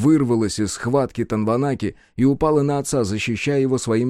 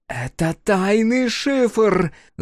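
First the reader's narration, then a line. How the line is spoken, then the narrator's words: Yelled. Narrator (Russian): заорала Танванаки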